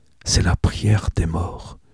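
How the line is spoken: Murmuring. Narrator (French): murmure-t-il

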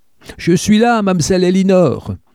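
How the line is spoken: Shouted back. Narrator (French): hurla Buster en retour

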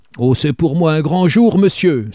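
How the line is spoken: Exclamation with throaty chuckle. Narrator (French): s'écria-t-il avec un petit rire de gorge

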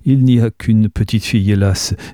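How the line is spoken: Laughing. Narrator (French): dit Anne en riant

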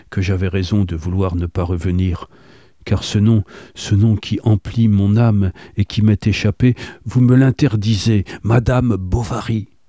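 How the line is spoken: Melancholy voice. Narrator (French): répliqua-t-il d'une voix mélancolique

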